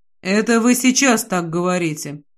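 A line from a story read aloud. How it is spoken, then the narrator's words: As calm as possible. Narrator (Russian): произношу максимально спокойно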